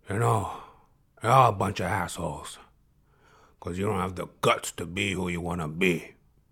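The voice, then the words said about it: Imitates another person's voice. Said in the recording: “a little impersonation, maybe not the greatest, but a little impersonation ... Mr. Al Pacino”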